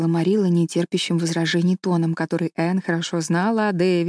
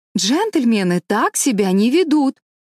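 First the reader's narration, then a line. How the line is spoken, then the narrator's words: Trained teacher's voice exclaiming. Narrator (Russian): Энн хорошо поставленным учительским голосом воскликнула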